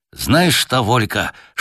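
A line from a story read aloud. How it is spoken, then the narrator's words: Whispered. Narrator (Russian): шепнул Женя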